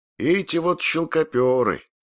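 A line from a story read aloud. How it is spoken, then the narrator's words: Weary old man's reply. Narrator (Russian): устало ответил старик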